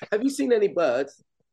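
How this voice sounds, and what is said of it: Awful but funny British accent. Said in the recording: “I do them, but awful, but funny ... Do a British accent”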